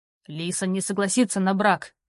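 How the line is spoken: Barked. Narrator (Russian): рявкнул Роу

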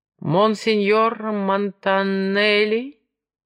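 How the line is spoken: Languid drawl. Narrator (Russian): томно протянул этот голос

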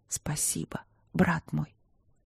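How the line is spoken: Whispered. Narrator (Russian): прошептала

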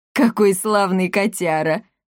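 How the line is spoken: Old man laughing. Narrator (Russian): рассмеялся старик

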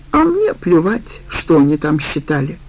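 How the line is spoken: Angry reply. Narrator (Russian): так же злобно ответила Аида

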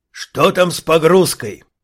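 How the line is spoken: Roaring. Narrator (Russian): проревел Асмандир

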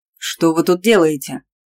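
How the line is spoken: Barked shout. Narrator (Russian): рявкнул Седой

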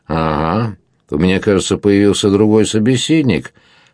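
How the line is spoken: Plain. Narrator (Russian): ответил Дон Фернандо

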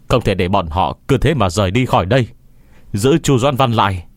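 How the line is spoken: Shout. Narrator (Vietnamese): Quảng Hiếu hét lên với yêu vương

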